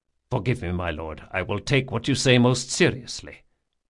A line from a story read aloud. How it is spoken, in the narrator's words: muttered Locke